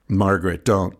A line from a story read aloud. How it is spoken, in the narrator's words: my father said